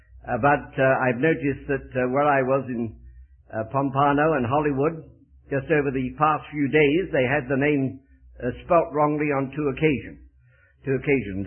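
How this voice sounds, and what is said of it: Very English accent. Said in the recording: “my speech betrays me ... I bring with me a very, very English accent”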